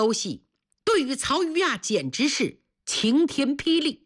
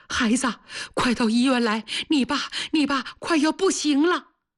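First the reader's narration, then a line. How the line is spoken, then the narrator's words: Trembling, sorrowful voice. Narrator (Chinese): 电话里妈妈声音颤抖，悲悲切切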